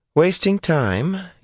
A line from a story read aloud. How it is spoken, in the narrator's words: young Jelani said, in a too innocent voice